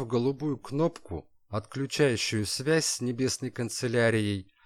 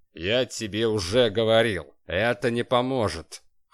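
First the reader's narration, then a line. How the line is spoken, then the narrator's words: Boss's scoffing grunt. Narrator (Russian): хмыкнул шеф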